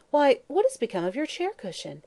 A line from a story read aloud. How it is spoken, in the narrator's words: Mary Louise suddenly exclaimed